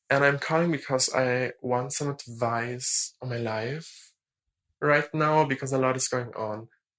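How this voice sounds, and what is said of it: German accent in English. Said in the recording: “I'm from Germany. I really, really hope that my accent is not that bad.”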